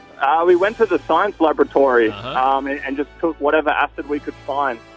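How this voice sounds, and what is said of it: Australian accent. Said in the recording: “in Australian accent.”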